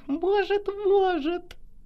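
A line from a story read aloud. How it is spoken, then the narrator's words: Giggling disembodied voice. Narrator (Russian): Хихикнул бесплотный собеседник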